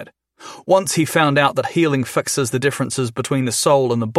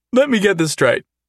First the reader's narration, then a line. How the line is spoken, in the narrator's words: Jason said, between peals of laughter